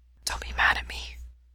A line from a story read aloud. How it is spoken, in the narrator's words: Ray whispers, and the words come so easily, he knows it has to be the venom in his bloodstream